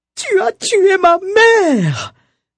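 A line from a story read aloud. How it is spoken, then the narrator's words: Anguished cry. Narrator (French): s'écrie en s'arrachant les cheveux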